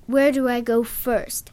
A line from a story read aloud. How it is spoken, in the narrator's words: I shouted in an aggressive voice